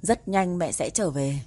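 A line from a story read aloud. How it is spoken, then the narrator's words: Suppressed sigh, lying. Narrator (Vietnamese): Nén tiếng thở dài vào lòng, anh vẫn phải nói dối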